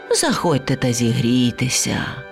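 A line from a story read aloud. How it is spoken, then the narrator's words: Sighing. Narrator (Ukrainian): та лише зітхнула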